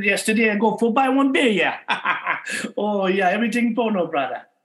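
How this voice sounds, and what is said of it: Put-on Hawaiian pidgin English accent. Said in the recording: “How about good old Hawaiian pigeon English?”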